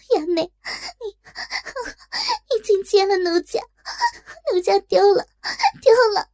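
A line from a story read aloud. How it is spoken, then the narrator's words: Crying out. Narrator (Chinese): 林娘子张嘴哭叫道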